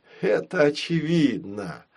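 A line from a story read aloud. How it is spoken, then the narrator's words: Groaning. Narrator (Russian): простонал папа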